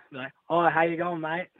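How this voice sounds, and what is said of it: Decent put-on Australian accent. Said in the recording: “my best Australian accent ... We need to hear your Australian accent ... it's not too bad ... you'd get away with it”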